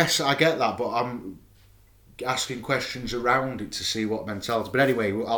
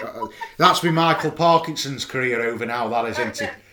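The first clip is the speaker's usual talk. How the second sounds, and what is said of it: Imperfect put-on Yorkshire accent. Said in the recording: “I, I, I, haven't even perfected my Yorkshire accent as well”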